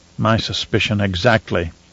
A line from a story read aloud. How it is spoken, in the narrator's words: Romber muttered